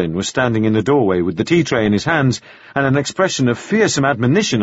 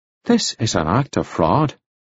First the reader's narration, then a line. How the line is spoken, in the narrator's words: controlled himself and said very quietly